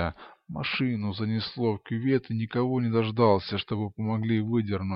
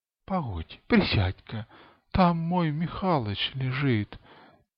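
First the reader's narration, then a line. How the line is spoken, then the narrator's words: Sobbing. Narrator (Russian): Она всхлипнула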